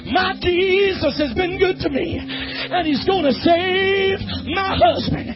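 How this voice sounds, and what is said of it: Imitated French accent. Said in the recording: “that little French woman in her little accent.”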